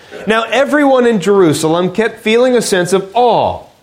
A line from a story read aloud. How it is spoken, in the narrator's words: he says